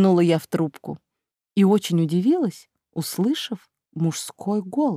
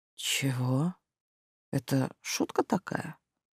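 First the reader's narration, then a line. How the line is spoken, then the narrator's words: Hoarse rude voice. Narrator (Russian): хриплое хамло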